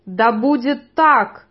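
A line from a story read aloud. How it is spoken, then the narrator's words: Roar. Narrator (Russian): проревел Фишек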